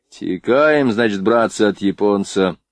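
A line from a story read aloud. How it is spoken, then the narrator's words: Gloomy. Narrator (Russian): мрачно проговорил Кащенко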